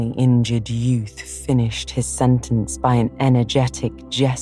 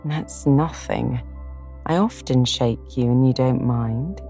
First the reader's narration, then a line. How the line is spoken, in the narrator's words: said Joe soothingly